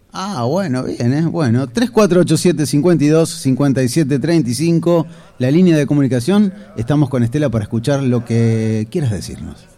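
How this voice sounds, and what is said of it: Smooth radio announcer voice. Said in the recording (Spanish): “Qué linda voz que tenés, cuando te sale así. Ves que con el calorcito te sale esa voz de locutor.”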